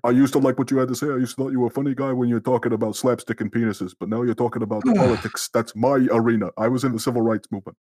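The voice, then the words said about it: Imitates another person's voice. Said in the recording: “That's a really good impression of it.”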